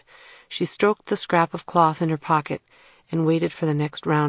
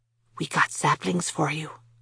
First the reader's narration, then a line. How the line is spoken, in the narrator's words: he whispered